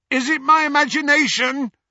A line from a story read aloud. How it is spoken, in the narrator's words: shouted, after a considerable stretch of silence